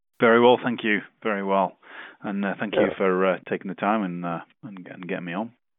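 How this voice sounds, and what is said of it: Noticeable accent. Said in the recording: “has a great accent”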